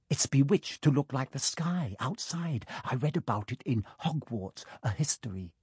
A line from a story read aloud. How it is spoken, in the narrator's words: He heard Hermione whisper